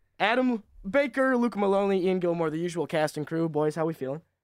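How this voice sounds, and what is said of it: Slightly hoarse voice. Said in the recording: “excuse my voice. A little under the weather. Not under the weather, just hoarse. Just slightly hoarse.”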